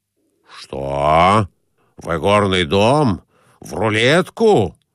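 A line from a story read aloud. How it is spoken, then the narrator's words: Exclamation. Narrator (Russian): воскликнул Николай Иванович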